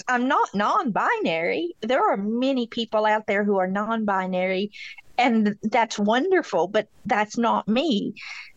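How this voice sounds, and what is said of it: Kentucky accent with a drawl. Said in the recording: “I'm from Beattyville, Kentucky. So, I got an accent ... A little bit of a drawl.”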